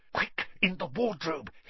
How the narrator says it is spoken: hissed Harry

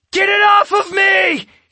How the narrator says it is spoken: he screamed

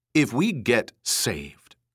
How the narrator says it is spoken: Ermgard said in a scolding, severe tone, as if chiding her

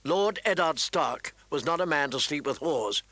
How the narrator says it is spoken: John said icily

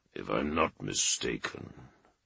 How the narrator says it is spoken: Dorne growled

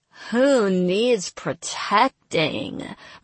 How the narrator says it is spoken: Marat jeered

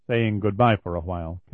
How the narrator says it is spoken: Kelly told her quietly

